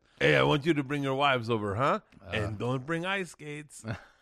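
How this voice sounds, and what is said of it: Nondescript put-on accent. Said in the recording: “I don't know what accent that is. ... I like doing a nondescript accent”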